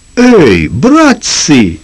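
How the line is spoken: Sudden stunned exclamation. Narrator (Russian): вдруг ошеломленно воскликнул Шарло

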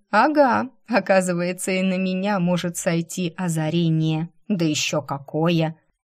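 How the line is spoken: Menacing. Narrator (Russian): грозно повторила

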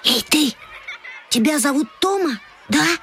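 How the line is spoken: Whispered question. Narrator (Russian): шепотом спросил Петька

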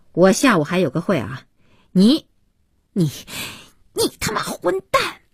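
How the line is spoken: Furious outburst. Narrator (Chinese): 不知如何发泄怒火，边说

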